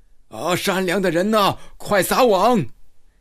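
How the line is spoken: Shouting. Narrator (Chinese): 听他喊道

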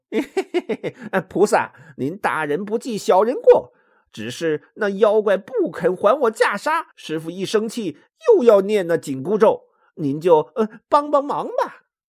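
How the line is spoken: Cheeky, grinning. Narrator (Chinese): 他只好嬉皮笑脸的说

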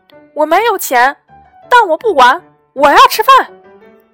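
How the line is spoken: Tearful shout. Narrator (Chinese): 猪头擦擦眼泪，大喊道

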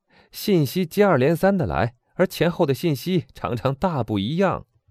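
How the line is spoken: Laughing loudly. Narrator (Chinese): 阿尔贝大笑着说

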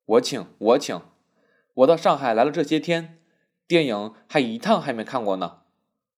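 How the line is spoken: Laughing. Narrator (Chinese): 玉锦笑道

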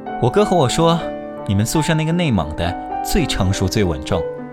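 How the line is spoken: Husband amused, laughing. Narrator (Chinese): 老公忽然看着我笑了，他说

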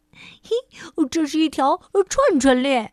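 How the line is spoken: Excited shout. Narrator (Chinese): 迪伦兴奋地喊着

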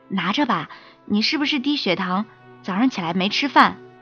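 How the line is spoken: Lowered voice. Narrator (Chinese): 胖子先生压低了声音说

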